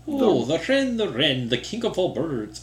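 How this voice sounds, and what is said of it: Deliberately bad put-on accent. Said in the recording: “terrible accent ... That is so bad ... not great”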